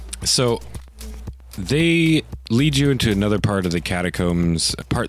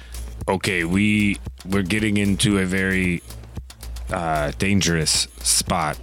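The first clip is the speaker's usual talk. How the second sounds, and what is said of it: Deep-voiced character voice. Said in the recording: “You got a very deep voice for such a little kid.”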